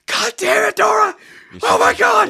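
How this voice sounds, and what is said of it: Screaming angrily. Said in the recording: “I'm screaming at my television”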